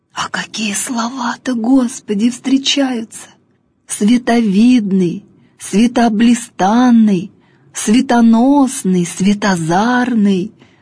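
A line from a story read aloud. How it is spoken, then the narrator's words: Tearful speech. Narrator (Russian): говорит он сквозь слезы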